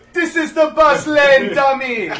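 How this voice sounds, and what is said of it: Put-on Jamaican accent. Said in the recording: “His Jamaican accent ... So good.”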